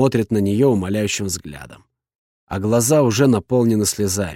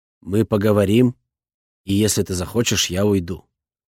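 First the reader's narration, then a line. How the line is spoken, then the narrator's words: Even, restrained voice. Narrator (Russian): произношу я ровным голосом, стараясь держать себя в руках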